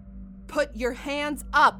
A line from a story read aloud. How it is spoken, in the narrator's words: Margot yells